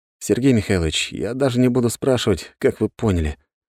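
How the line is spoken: Tired sigh. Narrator (Russian): устало вздохнул

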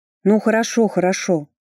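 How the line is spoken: Gloomy grumble. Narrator (Russian): мрачно буркнула я

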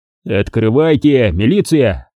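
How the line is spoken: Menacing bark. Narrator (Russian): Грозно рявкнул я

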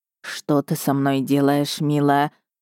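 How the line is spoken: Husband moaning. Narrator (Russian): простонал мой муж

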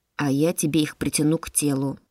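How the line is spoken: Calm explanation. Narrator (Russian): спокойно объяснил Караш

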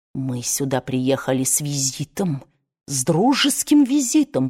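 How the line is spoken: Hiss. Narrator (Russian): прошипел он

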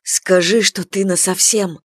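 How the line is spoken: Demanding pleading whisper. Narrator (Russian): требовательно и с мольбой зашептал ей на ухо

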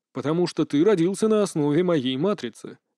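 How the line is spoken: Calm reply. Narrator (Russian): спокойно ответил Роберт

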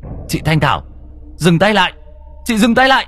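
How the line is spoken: Sudden shout. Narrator (Vietnamese): có tiếng quát lên

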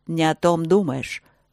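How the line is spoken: Dragon's growl. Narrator (Russian): рыкнул дракон

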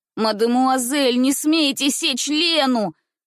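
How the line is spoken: Frantic shouting. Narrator (Russian): кричал он вне себя

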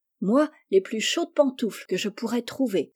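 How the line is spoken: Exclaimed. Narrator (French): s'écria Jo

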